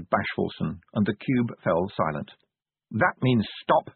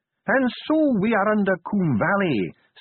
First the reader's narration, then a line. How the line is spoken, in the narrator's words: sneered Ardent